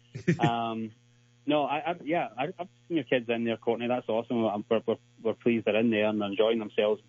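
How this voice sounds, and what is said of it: Non-American accent. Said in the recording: “The accent, you got a nice accent, man. I've been here just listening to his accent. Hey, can you check? Can you flip it and sound more American?”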